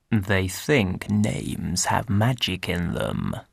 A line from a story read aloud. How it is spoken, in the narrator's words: he murmured